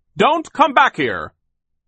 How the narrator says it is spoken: Sir yelled out after them

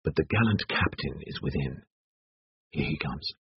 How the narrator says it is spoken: whispered Alain

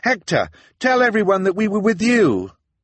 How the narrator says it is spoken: called out over the crowd

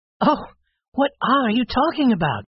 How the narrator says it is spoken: cried the young lady

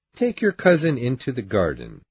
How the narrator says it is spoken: he said

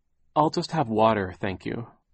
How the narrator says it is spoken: Violet said

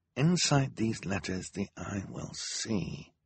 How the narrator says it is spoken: Klaus muttered to himself, as he often did when he was thinking hard about something he was reading

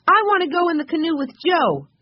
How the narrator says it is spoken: cried Benny, jumping up and down

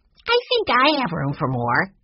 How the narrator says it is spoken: Benny piped up

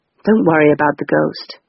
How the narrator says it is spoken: he said

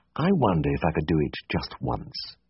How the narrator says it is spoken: I muttered

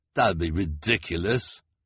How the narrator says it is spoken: the hook-handed man said with a sneer

